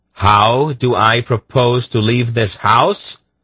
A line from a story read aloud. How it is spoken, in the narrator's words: he half shouted at the stunned Emperor